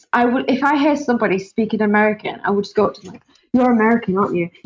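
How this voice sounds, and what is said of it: British accent. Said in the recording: “I just love your accent ... it's a British accent girl”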